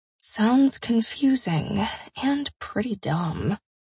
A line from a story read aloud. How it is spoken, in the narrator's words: I mumbled